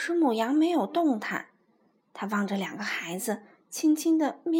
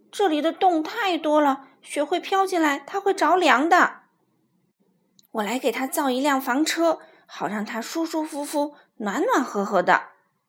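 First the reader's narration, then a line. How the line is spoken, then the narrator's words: Bleating. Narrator (Chinese): 咩的叫着，普鲁说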